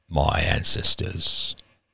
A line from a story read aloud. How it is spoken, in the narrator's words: he said grimly